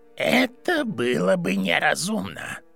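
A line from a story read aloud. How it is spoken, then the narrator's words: Creaky voice. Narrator (Russian): проскрипел бледный мужчина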